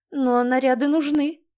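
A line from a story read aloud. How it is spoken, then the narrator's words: Mother's sigh. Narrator (Russian): вздохнула мать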